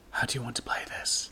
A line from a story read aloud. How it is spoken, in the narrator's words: MC whispered to Tifa